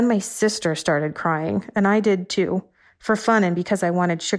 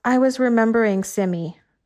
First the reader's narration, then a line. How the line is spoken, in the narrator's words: my niece said calmly